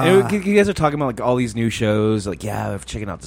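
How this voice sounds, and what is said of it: Usual voice. Nothing is said of it.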